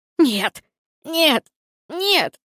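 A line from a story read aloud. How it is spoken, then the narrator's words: Young man sobbing, muffled. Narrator (Russian): Парень рыдал, закрыв лицо руками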